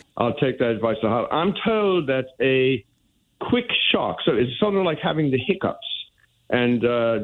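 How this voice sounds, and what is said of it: British accent. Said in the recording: “speaking with a British accent ... I am now somehow been converted into having a British accent.”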